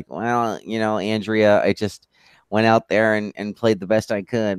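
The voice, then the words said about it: Imitates another person's voice. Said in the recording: “That was a great Tom Brady impression. ... I thought he was actually on the pod.”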